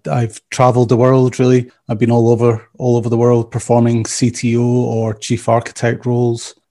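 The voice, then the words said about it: Scottish accent. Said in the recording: “probably from my accent, you can tell I'm not from around Atlanta originally. So I originally Scottish.”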